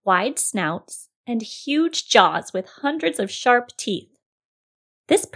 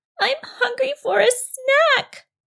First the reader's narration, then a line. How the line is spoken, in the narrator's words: she whimpered